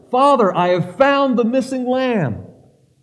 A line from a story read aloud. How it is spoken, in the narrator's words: I shouted to my father